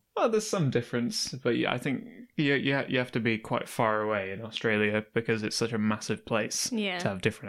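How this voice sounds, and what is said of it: Northern English accent. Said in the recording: “It's not the north, it's the Midlands. ... I sound very northern to people who are around... From here.”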